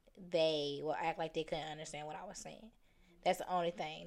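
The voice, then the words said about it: Country accent. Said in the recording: “my accent ... You're so country”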